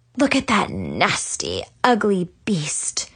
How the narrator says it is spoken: Tiffany sneered from behind me

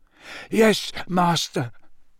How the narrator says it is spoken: moaned Wormtail

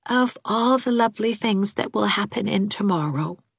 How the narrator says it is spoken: said little Elizabeth softly

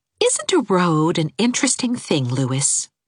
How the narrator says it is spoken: said Anne dreamily

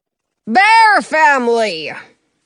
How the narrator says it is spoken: the king bellows

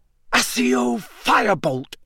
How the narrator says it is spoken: he shouted

